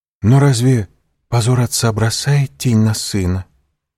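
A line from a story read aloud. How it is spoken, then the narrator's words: Timid remark. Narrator (Russian): робко заметила Валентина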